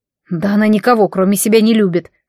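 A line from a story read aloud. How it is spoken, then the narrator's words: Snort. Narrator (Russian): фыркнул Айван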